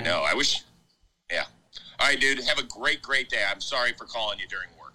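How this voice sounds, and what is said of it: Imitates another person's voice. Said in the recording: “That was a Chris Rose impersonator.”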